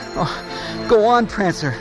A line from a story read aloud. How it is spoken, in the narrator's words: she panted